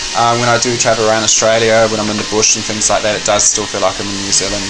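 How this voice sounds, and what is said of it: Slight New Zealand accent. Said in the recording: “I heard a little bit of New Zealand accent still there.”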